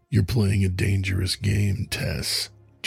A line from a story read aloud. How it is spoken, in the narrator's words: Julian said, his voice a low growl that vibrated through her